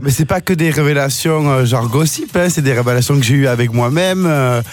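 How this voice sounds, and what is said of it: Sing-song French regional accent. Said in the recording (French): “cet accent chantant”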